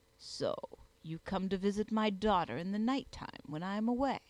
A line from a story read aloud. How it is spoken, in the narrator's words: continued the Wondersmith, with a sneering tone that dropped from his snake-wreathed mouth like poison